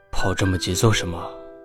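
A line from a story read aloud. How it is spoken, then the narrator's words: Deliberately deep questioning. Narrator (Chinese): 吕彻故意沉声问道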